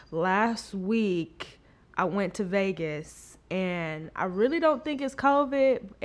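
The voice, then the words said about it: Sick-sounding voice. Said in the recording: “I'm actually a little under the weather. I don't know if you guys can tell by my voice, but I'm a little sick. I think it's just a chest cold”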